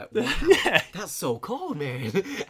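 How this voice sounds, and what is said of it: Bad put-on accent. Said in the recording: “That's such a bad accent. ... No, that was better than the Romanian.”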